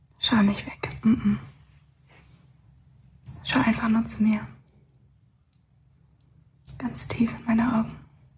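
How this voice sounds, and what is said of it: Soft ASMR-style whisper. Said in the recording (German): “Ist das ASMR? ... dass die flüstern ja auch immer so.”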